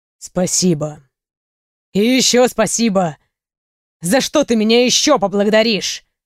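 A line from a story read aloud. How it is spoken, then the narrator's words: Growling. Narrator (Russian): прорычал Рей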